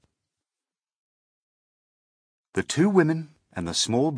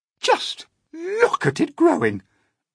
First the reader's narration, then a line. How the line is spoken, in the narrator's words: Aunt Spiker cried